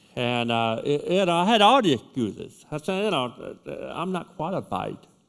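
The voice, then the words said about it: British accent. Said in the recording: “I talk funny. I talk like, I speak with a British accent”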